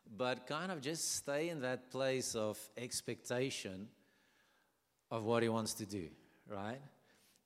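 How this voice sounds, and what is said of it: Non-native English accent. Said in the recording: “bear with my accent, and if I mess up verbs and tenses, please forgive me. This is my second language”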